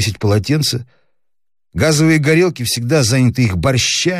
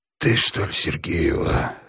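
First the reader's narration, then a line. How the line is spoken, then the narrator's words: Hoarse question. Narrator (Russian): хрипло спросил человек в кепочке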